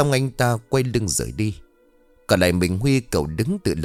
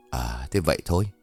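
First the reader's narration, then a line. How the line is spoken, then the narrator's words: Long sigh, then laughing. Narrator (Vietnamese): Tuấn thở dài thườn thượt, sau đó cười rồi bảo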